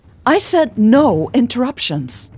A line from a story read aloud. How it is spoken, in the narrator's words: Elle yelled angrily